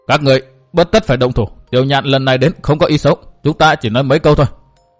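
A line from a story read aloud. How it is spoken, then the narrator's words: Urgent, raised voice. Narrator (Vietnamese): Chí Cường khẩn trương cao giọng nói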